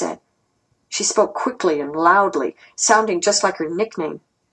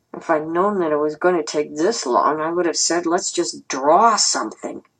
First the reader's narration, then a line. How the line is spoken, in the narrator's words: Fang Fang grumbled